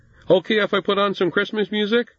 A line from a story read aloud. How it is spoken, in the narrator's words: he called out